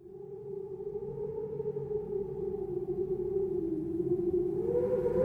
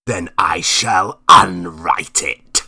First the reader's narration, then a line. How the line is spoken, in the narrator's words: snarled Marlowe